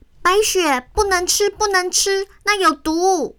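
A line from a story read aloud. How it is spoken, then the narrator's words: Anxious shouting. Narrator (Chinese): 小杰在一旁焦急地喊着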